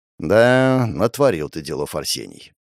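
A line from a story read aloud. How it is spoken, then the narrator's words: Sighing. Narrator (Russian): вздохнул ректор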